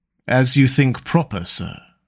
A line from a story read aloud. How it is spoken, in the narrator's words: coolly replied Conseil